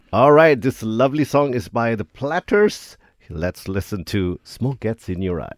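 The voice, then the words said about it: Radio announcer voice. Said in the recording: “Full on radio announcer voice came out.”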